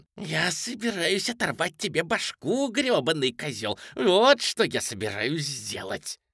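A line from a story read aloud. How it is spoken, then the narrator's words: Hissing. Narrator (Russian): шипел он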